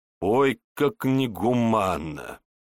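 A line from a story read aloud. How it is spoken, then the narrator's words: Chuckle. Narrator (Russian): хохотнул Егор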